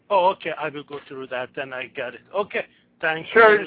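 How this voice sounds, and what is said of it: Middle Eastern accent. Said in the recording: “I noticed you have an accent. ... Middle East.”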